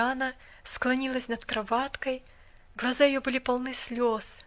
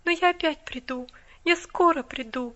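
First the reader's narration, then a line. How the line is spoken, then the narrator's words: Tender promise. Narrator (Russian): ласково пообещала она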